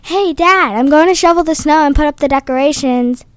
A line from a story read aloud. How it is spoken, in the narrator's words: yells from upstairs